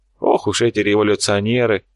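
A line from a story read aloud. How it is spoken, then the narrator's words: Old man's scoffing grunt. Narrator (Russian): хмыкнул старик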